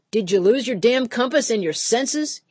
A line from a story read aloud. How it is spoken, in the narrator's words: he'd holler, his face turning red with rage